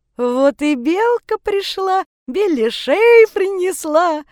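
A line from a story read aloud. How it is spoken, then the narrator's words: Loud singsong. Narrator (Russian): Рыжий пропел так громко, что вся рекреация услышала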